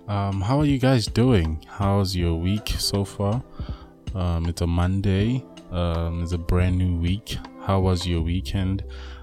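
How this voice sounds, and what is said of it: Husky, rough voice. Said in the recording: “I had a flu. I still have it, so you'll excuse my voice. It's a bit husky and rough”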